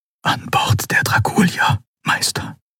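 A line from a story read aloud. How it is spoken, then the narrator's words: Whispered. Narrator (German): flüsterte er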